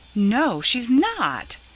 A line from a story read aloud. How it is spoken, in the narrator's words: cried Laura vehemently